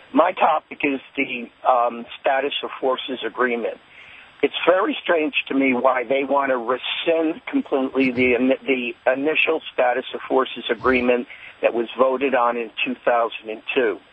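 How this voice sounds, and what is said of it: Hoarse, nearly lost voice. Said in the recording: “I've lost my voice, so I'll do the best I can.”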